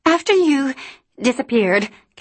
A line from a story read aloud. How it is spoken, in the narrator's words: Callie said breathlessly